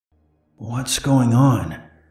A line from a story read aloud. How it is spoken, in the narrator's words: said in a hoarse voice